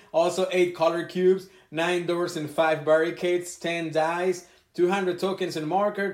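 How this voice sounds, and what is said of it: Strong non-native accent. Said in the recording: “my accent is very bad”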